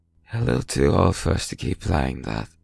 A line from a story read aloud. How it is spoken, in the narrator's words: Johnny slurred